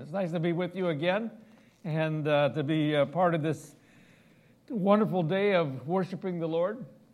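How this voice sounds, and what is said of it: Midwestern American accent. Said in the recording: “They certainly can pick up my Midwestern accent all the time.”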